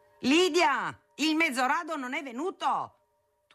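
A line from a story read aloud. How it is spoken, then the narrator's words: Thundering down a corridor. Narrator (Italian): tuonava per il corridoio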